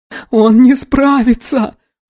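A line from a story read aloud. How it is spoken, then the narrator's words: Moaning girl. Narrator (Russian): простонала девушка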